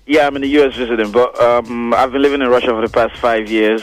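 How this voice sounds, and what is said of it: Speaks with a noticeable accent. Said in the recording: “you got an accent... we got the accent”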